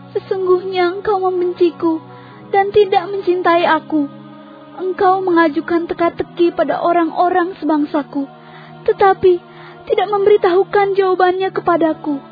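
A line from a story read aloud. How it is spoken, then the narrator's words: Crying while speaking. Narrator (Indonesian): Maka istri Simson menangis di hadapan Simson sambil berkata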